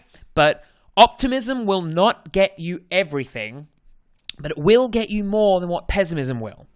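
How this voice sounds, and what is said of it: Australian accent. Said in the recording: “I'm going to say that in my Australian accent, mate.”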